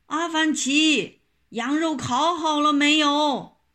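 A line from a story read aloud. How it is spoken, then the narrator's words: Shouting call. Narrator (Chinese): 财主们喊起来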